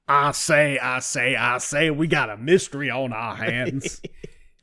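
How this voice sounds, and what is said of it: Foghorn Leghorn cartoon voice. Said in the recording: “basically foghorn leghorn voice”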